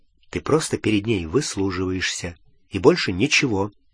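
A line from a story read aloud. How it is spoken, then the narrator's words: Quiet. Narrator (Russian): Гарри тихонько сказал Рону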